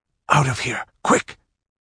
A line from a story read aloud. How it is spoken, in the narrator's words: he urged in a whisper that congealed the girl's blood